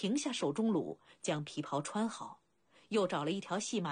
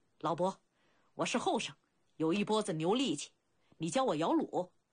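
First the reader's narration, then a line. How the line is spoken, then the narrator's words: Loud. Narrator (Chinese): 鲁仲连…高声道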